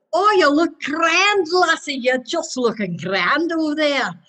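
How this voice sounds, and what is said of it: Put-on Scottish-style accent. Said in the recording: “Oh, I love the accent.”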